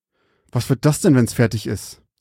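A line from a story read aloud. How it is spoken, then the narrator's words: Hissed through clenched teeth. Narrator (German): zischte er zwischen seinen zusammengepressten Zähnen hindurch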